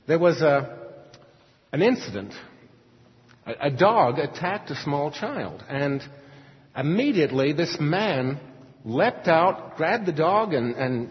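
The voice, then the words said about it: Mostly Australian accent. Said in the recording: “you don't have to listen to my accent for too long to know that I'm not originally from Houston ... I have a mostly Australian accent”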